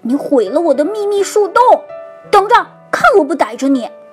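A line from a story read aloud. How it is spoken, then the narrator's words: Angry shout. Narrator (Chinese): 哥哥马克大喊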